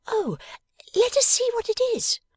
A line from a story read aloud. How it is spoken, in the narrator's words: cried